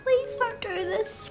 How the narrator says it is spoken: pleaded Dad

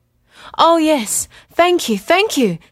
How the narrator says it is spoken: said Chang, excitedly

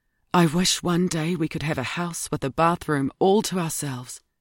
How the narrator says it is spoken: Ruby closed the door and whispered in Edie's ear

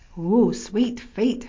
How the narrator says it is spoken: Herman laughed

